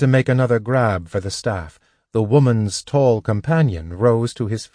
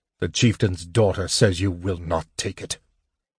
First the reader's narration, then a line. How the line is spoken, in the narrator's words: the man said harshly